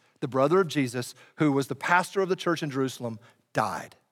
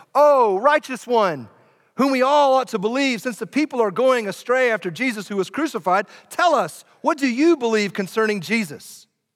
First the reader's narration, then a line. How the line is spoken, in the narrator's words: the scribes and the Pharisees shouted to him